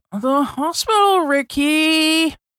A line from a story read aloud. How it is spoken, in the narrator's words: Baby piped up